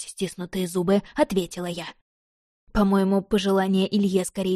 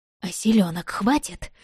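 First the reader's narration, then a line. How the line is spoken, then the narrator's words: Hoarse, choked question. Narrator (Russian): сипло переспросила я, пытаясь избавиться от все же заползшей в нос и рот гадости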